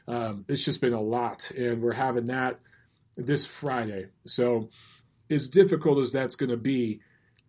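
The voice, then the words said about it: Hoarse, strained voice. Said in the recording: “you could hear it in my voice. I'm losing my voice”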